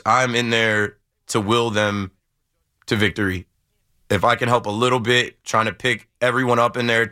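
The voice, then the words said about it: Slightly hoarse voice. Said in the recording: “you can hear my voice is a little hoarse.”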